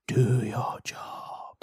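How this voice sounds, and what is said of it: Eerie whisper. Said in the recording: “weird voice that's whispering”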